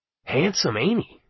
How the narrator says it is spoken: I muttered to Arnie

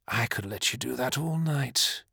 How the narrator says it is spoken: purred

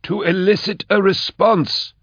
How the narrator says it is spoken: cried Imus

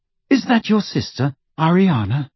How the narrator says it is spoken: said Hermione rather timidly

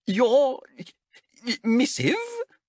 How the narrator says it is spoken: stammered Kaskin

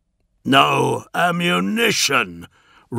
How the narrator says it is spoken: roared Bombastus, though the words were only rendered as text on the inner face of his casket visor

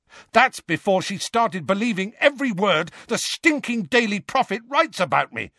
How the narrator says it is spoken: said Harry at the top of his voice

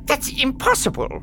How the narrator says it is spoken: Ilparg sputtered

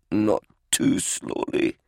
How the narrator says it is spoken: Banda grunted

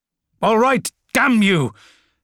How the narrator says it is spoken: snapped Albard

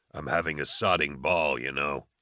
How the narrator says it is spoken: Nail mumbled

